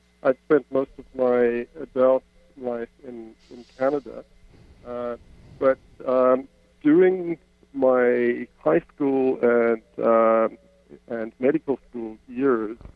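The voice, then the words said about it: South African accent. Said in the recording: “I grew up in South Africa, as my accent betrays.”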